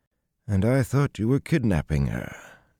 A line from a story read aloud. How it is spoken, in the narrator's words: Noel sighed